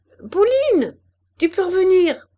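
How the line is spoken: Raised voice, shouting. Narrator (French): haussant la voix, elle cria

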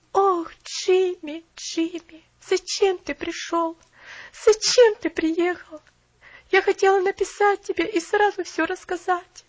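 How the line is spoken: Moaned. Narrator (Russian): простонала Поллианна

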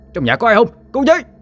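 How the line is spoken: Screaming for help. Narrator (Vietnamese): tiếng la hét

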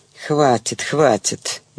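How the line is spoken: Through gritted teeth. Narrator (Russian): процедила Галя

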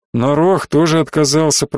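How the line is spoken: Grumbling. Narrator (Russian): пробурчал

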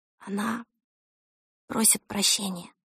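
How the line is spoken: Whispered. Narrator (Russian): шепнула Эльса

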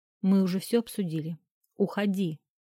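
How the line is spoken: Tense, displeased tone. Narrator (Russian): произнес напряженным, недовольным тоном

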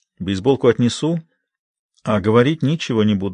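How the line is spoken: Calm reply. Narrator (Russian): спокойно отвечает Памела

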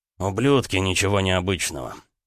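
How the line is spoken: Smirking grunt. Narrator (Russian): хмыкнул Келлер

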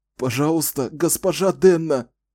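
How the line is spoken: Sobbing. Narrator (Russian): всхлипывал

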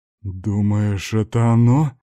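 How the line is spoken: Muffled question. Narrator (Russian): глухим голосом осведомился Шохин

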